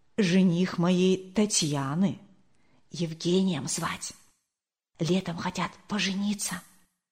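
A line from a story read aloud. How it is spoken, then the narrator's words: Whisper in ear. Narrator (Russian): Зинаида Кирилловна шепнула на ухо Марии Николаевне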